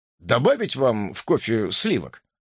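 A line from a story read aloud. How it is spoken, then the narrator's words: Plain. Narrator (Russian): спросил он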